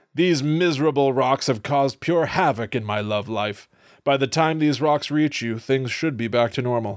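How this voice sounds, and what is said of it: Reads aloud in a put-on accent. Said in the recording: “What is this accent?”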